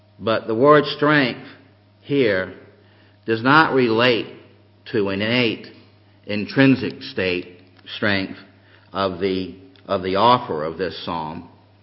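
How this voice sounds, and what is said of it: North Carolina Southern accent. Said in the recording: “my North Carolina Hebrew accent”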